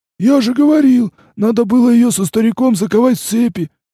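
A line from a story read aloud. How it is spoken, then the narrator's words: Wheezing. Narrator (Russian): просипел карлик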